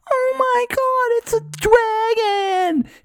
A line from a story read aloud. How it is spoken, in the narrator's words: screaming